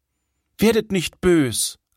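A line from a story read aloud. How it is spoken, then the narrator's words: Plain. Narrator (German): antwortete der Sohn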